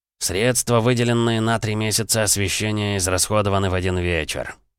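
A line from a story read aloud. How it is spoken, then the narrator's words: Grumbling. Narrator (Russian): проворчал Фанданго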